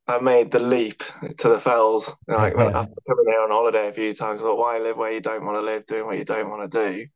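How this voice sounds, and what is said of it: Nottingham English accent. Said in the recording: “as you can tell from my accent, I'm not a Cumbrian by nature. I was born and brought up in Nottingham.”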